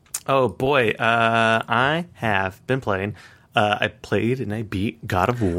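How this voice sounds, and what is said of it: Usual voice. Nothing is said of it.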